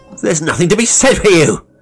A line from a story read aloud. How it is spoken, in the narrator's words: he shouted